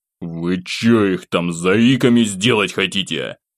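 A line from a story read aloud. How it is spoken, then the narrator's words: Growled. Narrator (Russian): рыкнул я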